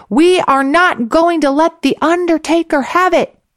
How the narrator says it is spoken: continued to rabble-rouse, shouting

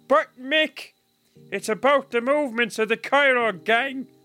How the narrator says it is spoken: Brua exclaimed

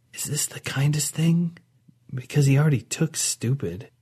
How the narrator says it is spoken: Audra whispered to Nava

